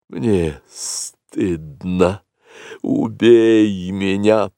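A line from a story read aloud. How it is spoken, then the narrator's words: Hissed. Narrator (Russian): прошипела белая кобра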